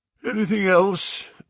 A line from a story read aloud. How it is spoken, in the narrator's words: asked Holmes, yawning